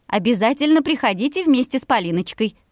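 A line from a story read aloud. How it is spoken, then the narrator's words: Shrill. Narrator (Russian): Визгливо продолжила соседка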